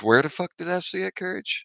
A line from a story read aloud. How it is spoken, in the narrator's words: I mumbled to myself